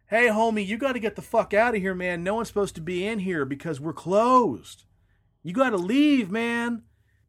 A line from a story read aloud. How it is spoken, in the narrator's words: he yells out